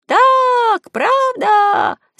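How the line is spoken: Crowd shouting. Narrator (Russian): закричал весь народ

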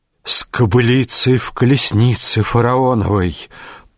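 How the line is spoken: Close intimate whisper. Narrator (Russian): прошептал он, наклонившись к ее шее

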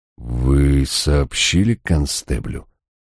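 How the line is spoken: Forced out. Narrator (Russian): мне удалось выдавить

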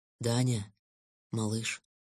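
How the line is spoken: Tender, sad, unfamiliar voice. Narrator (Russian): совсем незнакомым нежным и грустным голосом сказал котенок

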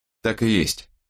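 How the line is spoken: Plain. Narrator (Russian): сказал Страйк

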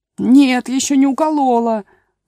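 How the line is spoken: Whimpering. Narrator (Russian): захныкала королева

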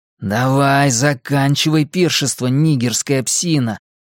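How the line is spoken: Hissing. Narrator (Russian): прошипел Генри

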